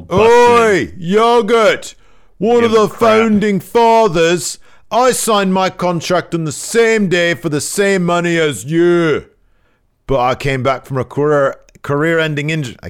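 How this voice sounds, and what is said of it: Bad put-on British accent. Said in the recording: “my bad British accent, my Gradwell voice”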